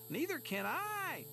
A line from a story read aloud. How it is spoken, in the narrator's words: howled Flitter